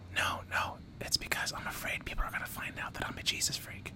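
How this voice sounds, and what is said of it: Whispering. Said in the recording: “It's creeping me out ... why I'm whispering ... I'm assuming it's ASMR”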